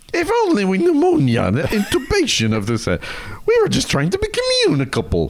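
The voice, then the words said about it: Irish accent impression. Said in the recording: “can you do Norm Crosby in an Irish accent?”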